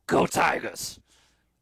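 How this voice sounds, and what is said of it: Imitates another person's gravelly voice. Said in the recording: “my best impression ... 7 of 10 ... I need to, like, somehow gravel up my voice more ... to get that kind of gravel in my voice”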